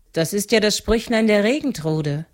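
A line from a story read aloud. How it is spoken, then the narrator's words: Calling out. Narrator (German): rief Rostine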